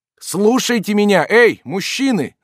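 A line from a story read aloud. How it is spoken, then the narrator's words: Yelled. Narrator (Russian): завопил он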